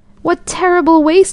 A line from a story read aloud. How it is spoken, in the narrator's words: exclaimed